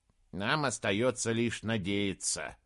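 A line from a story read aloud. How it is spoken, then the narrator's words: Grumbling. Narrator (Russian): проворчал Бинабик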